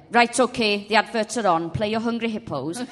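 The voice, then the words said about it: Imitating a Welsh father's voice. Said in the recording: “it's my dad's Welsh. I can only ever talk about what my dad says I can only do his voice when I talk about him.”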